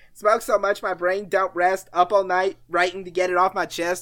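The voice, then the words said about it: Imitates another person's voice, rapping. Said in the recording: “I do a terrible Danny Brown impression.”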